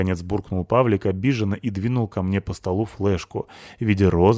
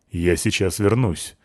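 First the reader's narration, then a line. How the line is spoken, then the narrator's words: Very displeased tone. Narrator (Russian): сказал он крайне недовольным тоном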